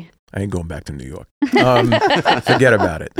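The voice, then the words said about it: Put-on New York accent. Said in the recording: “Now you have to speak in a New York accent”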